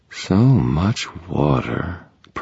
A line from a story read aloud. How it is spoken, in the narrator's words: purred a female voice beside me